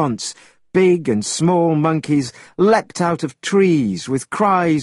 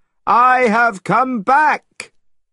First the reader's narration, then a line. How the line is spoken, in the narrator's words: shouted the Monkey King